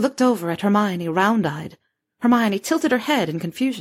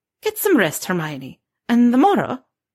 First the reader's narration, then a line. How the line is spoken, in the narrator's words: She faltered